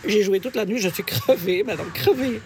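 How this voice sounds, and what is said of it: Odd put-on Belgian accent. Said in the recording (French): “cet accent bizarre ... Gudule de Belgique ... c'est peut-être pour ça que j'ai un accent”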